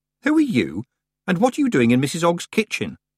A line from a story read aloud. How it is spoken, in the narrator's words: Tiffany said sharply